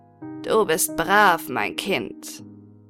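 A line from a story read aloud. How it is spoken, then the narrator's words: Purring tone. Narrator (German): sagte sie mit einem schnurrenden Tone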